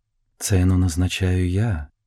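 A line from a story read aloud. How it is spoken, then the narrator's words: Soft. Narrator (Russian): мягко сказала женщина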